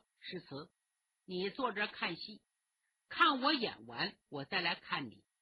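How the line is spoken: Smiling. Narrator (Chinese): 丛飞笑着对他说

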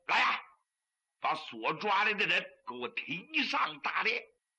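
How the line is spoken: Angry command. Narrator (Chinese): 朱元璋 怒气不息，吩咐一声

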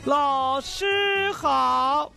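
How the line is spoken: Loud chorus of students. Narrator (Chinese): 同学们以很高的声音叫道

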